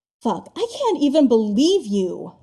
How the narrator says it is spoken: Styles snaps, in agitation

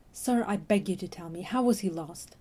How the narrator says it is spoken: Jack said urgently

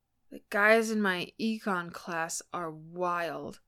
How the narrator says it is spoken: said, words just a little slurred

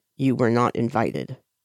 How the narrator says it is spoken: Lan Chen says flatly to Huaisang

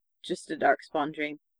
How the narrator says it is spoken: he murmured

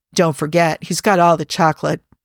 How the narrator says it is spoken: John leaned over and murmured

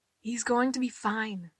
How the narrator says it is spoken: she said quietly

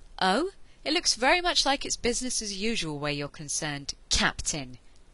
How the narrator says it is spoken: Ianto snapped

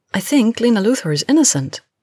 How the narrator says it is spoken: Kara immediately blurted out

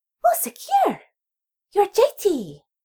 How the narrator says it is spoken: exclaiming in a prepubescent soprano

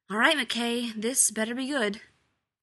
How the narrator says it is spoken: with a regretful sigh and said

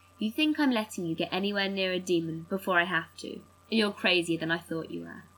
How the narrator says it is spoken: Sam says calmly

